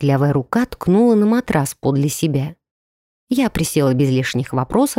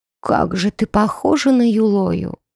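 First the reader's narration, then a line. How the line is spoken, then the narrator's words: Sighing. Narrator (Russian): вздохнула она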